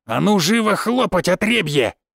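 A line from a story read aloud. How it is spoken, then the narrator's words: Growling. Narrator (Russian): прорычал Крапивин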